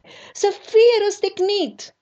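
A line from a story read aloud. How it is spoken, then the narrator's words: Crowd shouting. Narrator (Romanian): strigătele lor și ale preoților celor mai de seamă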